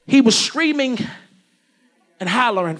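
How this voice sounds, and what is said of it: Baltimore accent. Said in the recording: “my little Baltimore City accent”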